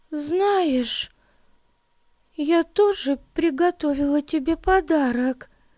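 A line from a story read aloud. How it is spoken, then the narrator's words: Trembling voice. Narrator (Russian): произнесла она дрожащим голосом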